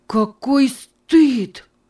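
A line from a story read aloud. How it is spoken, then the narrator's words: Exclamation. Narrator (Russian): воскликнул он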